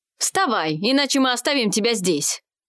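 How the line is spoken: Merchant barking. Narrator (Russian): рявкнул один из торговцев

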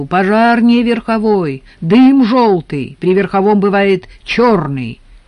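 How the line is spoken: Read out, shouted. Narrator (Russian): Баулин прочел и крикнул Леонтьеву

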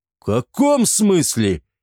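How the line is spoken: Exclaiming. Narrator (Russian): воскликнул Эгиет

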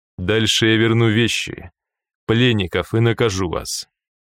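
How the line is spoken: Calm reply. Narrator (Russian): спокойно ответил Тапок

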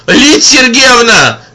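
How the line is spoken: Shout from behind. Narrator (Russian): крикнул сзади Зина

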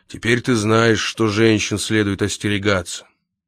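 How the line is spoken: Heavy sigh, then added. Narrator (Russian): тяжко вздохнув, Лакандер добавил

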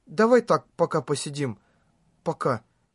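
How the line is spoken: Quiet speech. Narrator (Russian): Синон тихо произнесла

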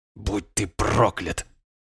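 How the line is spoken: Hoarse rasp. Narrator (Russian): прохрипел он

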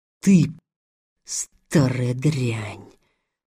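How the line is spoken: Whisper. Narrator (Russian): прошептал Илья

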